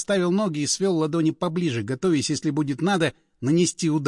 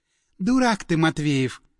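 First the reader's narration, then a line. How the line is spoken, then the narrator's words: Sigh. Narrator (Russian): Вздохнула Леночка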